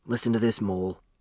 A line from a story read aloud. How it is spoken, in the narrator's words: he whispered